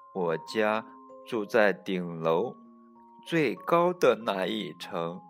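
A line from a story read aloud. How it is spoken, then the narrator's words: Quiet mumble. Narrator (Chinese): 卡斯通小声嘟囔着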